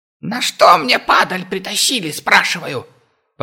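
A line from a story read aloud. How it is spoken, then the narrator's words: Raised shrill squeal. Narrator (Russian): Повысив голос, взвизгнул он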